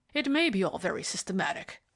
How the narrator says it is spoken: growled the superintendent

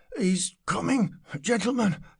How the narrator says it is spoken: said breathlessly

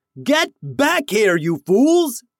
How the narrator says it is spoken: shouted

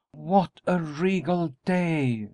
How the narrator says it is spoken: she exclaimed

